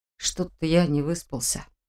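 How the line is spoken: Mumbled. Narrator (Russian): пробормотал

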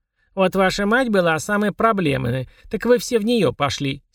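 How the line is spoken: Angry grumbling, old woman. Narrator (Russian): сердито ворчала бабушка

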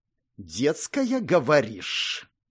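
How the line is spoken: Hissing. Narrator (Russian): практически прошипел Аймар

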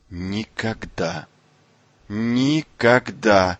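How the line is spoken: Trembling voice. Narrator (Russian): произнесла дрожащим голосом

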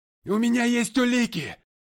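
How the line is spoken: Shouting. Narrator (Russian): закричал я

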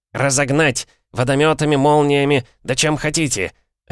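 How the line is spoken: Boss barking. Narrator (Russian): рявкнул начальник отдела

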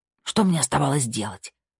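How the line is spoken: Hiss. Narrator (Russian): прошипела Тина

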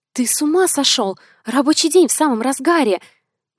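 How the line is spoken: Startled hiss. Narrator (Russian): Прошипела, когда Картер под юбку залез

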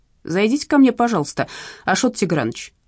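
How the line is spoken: Unusually dry, restrained. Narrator (Russian): проговорила Сеточкина непривычно сухо и сдержанно

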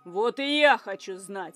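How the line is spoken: Whirlwind growling. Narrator (Russian): рыкнул смерч

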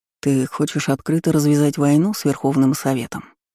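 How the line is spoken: Calm clarifying question. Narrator (Russian): спокойно уточнил Карпов

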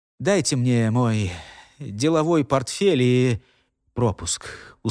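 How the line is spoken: Tired, swallowing nervously. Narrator (Russian): устало махнул бывший начальник секретной службы, неровно сглатывая слюну

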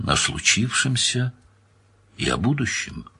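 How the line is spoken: Soft, gentle. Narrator (Russian): мягко сказал Данил

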